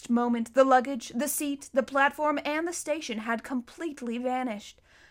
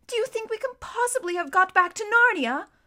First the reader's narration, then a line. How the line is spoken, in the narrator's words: exclaimed Lucy